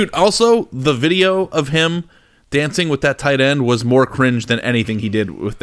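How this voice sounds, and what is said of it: Usual voice. Nothing is said of it.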